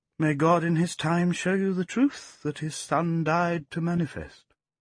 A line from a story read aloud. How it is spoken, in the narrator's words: Geoffrey merely smiled sadly and said